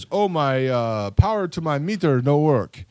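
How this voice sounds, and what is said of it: Imitated accent of taxi driver. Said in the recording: “Did he have that accent? ... got the accent.”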